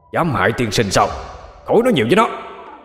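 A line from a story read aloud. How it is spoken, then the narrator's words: Loud unison shout. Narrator (Vietnamese): Ma Na Tịch và Hỏa Thiên Di đồng thanh hét lớn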